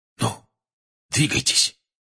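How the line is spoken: Whisper. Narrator (Russian): шепнул Фред

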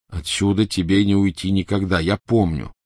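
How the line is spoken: Plain. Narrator (Russian): сказал Гарри

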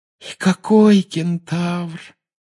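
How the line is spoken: Sighing. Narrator (Russian): вздохнула Парвати

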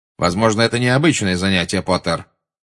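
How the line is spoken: Spiteful. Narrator (Russian): злобно сказал Снег

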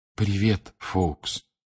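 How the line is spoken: Soft whisper. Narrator (Russian): тихо прошептал Гарри

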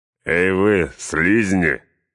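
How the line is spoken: Roaring orc laughter. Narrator (Russian): хохотали орки Изенгарда

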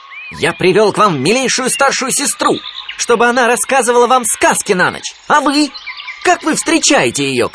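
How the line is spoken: Shouting. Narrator (Russian): кричал он

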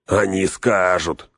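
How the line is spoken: Snort, hunchback. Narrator (Russian): хмыкнул горбак

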